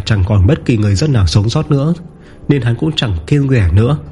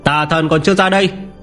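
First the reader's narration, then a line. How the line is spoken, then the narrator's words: Booming shout. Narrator (Vietnamese): Lâm Phàm quát, giọng nói như cơn gió quét qua mọi ngóc ngách ở trong thành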